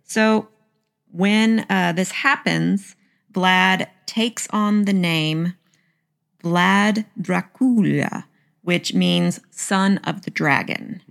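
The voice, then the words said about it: American Southern accent. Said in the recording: “my southern accent”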